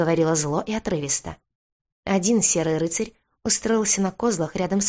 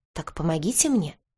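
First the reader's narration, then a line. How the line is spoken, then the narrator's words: Unexpectedly soft. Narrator (Russian): неожиданно мягко сказала Серая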